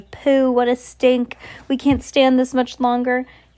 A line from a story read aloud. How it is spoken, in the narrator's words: Several of them were holding their noses with gloved fingers, and there were cries of